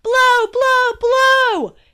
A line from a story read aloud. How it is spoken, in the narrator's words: Dad yelled again